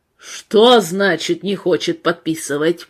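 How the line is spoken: Thundered into phone. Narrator (Russian): прогремел он в телефонную трубку

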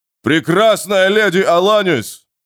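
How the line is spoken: Deep booming bass voice. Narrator (Russian): прогудел его басовитый голос

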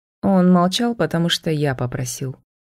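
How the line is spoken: Grim. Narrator (Russian): мрачно произнес Себастьян

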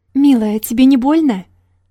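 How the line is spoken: Theatrical exclamation. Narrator (Russian): С драматизмом, достойным Оскара, воскликнул он

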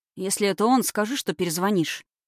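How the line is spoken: Muttering. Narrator (Russian): пробормотал Морозов

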